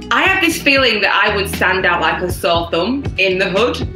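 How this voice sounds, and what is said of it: Woman speaking with a noticeable accent. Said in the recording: “my accent would give me away ... you have an accent ... listen to this lady talk ... They would enjoy your accent”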